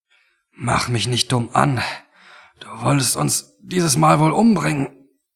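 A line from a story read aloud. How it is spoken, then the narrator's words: Indignant but weak. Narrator (German): brachte Tony empört, aber schwach hervor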